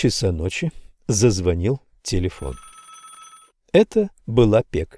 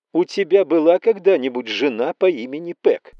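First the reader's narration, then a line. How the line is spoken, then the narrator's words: Woman shouting. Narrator (Russian): кричала она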